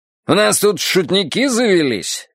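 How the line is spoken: Barked after awkward pause. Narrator (Russian): рявкнул он после неуютной паузы

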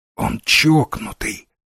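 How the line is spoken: Whisper. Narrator (Russian): зашептал Дивайн

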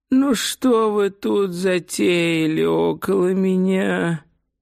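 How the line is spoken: Whining voice. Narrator (Russian): ноющим голосом произнес он

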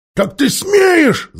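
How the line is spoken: Gnome's yell. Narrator (Russian): завопил гном

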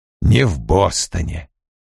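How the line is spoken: Quiet. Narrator (Russian): тихо произнес Коули

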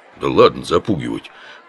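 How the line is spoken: Grumbling, lowered tone. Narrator (Russian): буркнул Оболенский, но тон понизил

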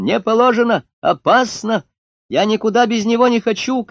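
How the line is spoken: Shouting. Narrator (Russian): кричала Люська

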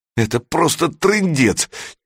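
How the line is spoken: Near-tearful complaining. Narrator (Russian): чуть не плачущим голосом жаловался он

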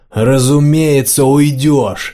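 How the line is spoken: Roaring. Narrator (Russian): взревел матрос

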